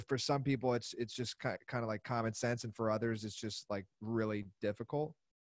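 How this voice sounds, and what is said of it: Pennsylvania accent. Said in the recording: “roots back in Pennsylvania ... I can hear it in your accent.”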